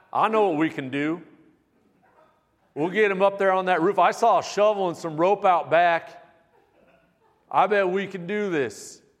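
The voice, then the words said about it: Put-on southern accent. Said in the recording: “They said it with a southern accent.”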